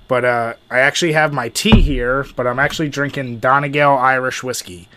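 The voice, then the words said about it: Congested, sick-sounding voice. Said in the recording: “if you can't tell from my voice, you'll certainly hear it throughout the podcast, unfortunately. I have a really nasty cold”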